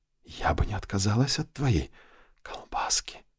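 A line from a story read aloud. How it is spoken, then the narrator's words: Breathy whisper. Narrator (Russian): с придыханием прошептала блондинка в ухо Винсенту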